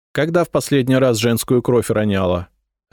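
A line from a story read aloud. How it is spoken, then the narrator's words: Sharp question. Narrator (Russian): резко спросила княгиня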